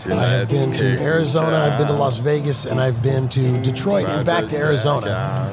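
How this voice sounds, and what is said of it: Hoarse, worn-out voice. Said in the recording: “my voice is just about shot”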